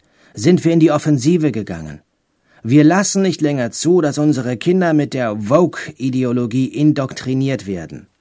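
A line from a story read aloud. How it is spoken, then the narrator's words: Calling out. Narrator (German): ruft DeSantis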